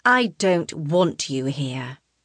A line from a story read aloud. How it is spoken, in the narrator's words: she says through gritted teeth